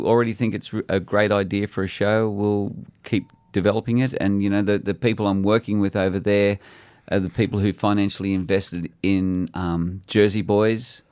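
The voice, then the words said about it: Australian accent. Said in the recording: “Australian, mate. ... Listen to that accent. ... I love your accent”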